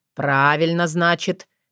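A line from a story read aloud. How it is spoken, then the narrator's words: Wry snort. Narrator (Russian): хмыкнул Соколовский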